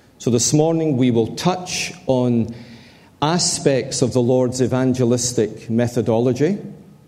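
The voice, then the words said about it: Glasgow Scottish accent. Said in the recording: “my educated, mellifluous Glasgow accent”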